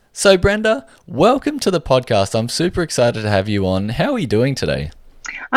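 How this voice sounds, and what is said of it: Australian accent. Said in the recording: “loves your accent, and she wants to move to Australia ... you've got an accent”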